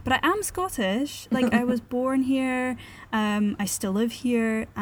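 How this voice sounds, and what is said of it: Nondescript mid-Atlantic accent, faintly Scottish. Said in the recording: “You do have a very nondescript accent ... you're from the middle of the Atlantic ... I want to have a more Scottish accent”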